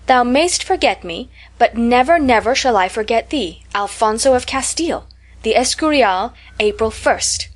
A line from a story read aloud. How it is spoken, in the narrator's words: cried Louisa, and she read